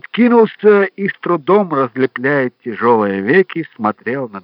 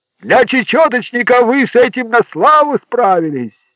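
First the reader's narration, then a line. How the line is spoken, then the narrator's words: Shouted after someone. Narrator (Russian): крикнул вслед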